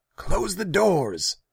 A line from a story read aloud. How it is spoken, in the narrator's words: Tassiger shouted